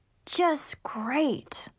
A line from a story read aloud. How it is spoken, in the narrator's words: I sighed